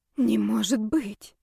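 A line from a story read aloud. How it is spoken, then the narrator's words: Quiet whisper. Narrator (Russian): сорвался тихий шепот с моих губ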